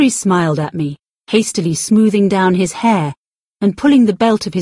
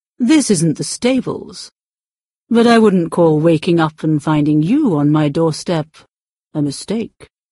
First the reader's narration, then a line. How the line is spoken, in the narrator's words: he said in an attractively deep voice